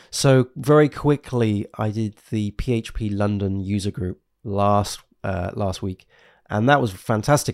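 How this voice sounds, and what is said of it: Congested voice with a cold. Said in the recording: “as you can probably tell, I have a cold and I'm trying to preserve my vocal cords”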